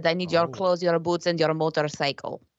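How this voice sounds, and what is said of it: Put-on Russian accent. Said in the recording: “if you really wanted to do it in Russian accent ... that would have been much better Russian accent ... It's one of my specialties is doing Russian accents.”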